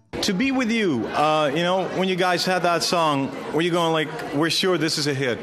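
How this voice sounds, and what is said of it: Very American accent. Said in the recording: “the host's very American accent”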